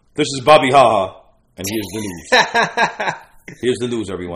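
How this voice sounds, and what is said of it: Mock newscaster voice. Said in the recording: “news voice”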